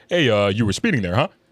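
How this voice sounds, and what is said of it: Imitated stereotypical white guy voice. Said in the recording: “did a better white dude impersonation, better than the white cop. He was more whiter than the white cop... That's exactly how that nigga said it.”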